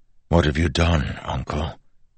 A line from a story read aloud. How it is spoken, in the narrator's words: Wax asked softly